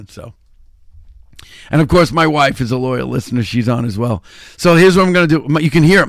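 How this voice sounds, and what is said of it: Voice going, strained and hoarse. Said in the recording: “My voice is starting to go. I've been talking like nonstop, like forever.”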